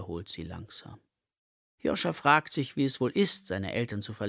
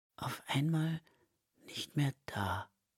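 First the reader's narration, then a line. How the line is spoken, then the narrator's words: Whisper. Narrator (German): flüstert Marie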